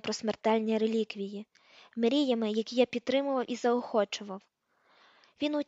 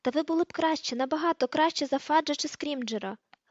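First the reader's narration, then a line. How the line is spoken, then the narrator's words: Exclamation. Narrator (Ukrainian): вигукнув Гаррі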